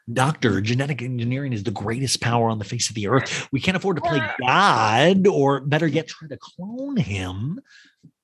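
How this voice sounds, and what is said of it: Impression of a Jurassic World actor. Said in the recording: “Do your impression of him in The Fly.”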